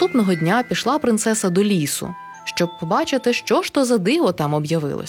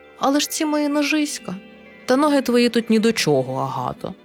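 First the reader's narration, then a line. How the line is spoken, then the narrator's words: Gentle but insistent. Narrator (Ukrainian): лагідно, але наполегливо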